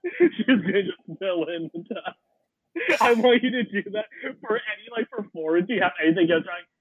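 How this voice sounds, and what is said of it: Usual voice. Nothing is said of it.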